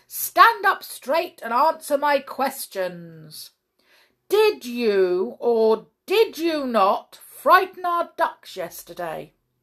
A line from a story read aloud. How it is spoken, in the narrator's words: said the judge in a very loud voice